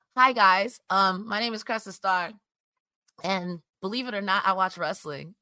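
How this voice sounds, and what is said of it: Hoarse, strained voice. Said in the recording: “I'm losing my voice. I've been sick all week”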